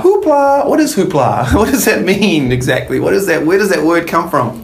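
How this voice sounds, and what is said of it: New Zealand accent. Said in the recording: “Our favorite New Zealander. ... I love that accent.”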